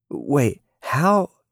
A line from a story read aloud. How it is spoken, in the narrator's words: she stuttered, but was cut off